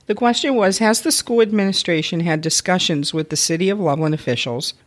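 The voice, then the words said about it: Sore-throated, deeper cold-affected voice. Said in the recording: “I'm getting a cold, so my throat is very sore ... it gives you a better radio voice, though.”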